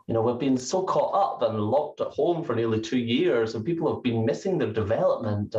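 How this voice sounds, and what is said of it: Scottish accent. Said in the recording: “your accent. I love the Scottish accent.”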